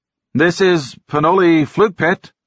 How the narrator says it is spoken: Norm said loudly into the microphone

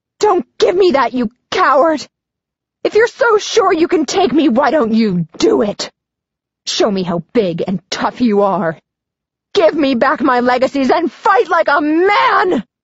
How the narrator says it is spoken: shout

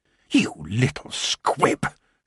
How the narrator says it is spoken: hissed

